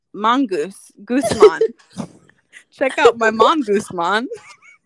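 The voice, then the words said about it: Bad fake Jamaican accent. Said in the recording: “in a terrible Jamaican accent.”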